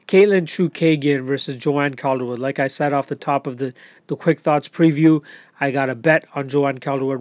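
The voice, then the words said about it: Hoarse, strained, fading voice. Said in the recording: “I'm losing my breath. Or losing my voice, I should say.”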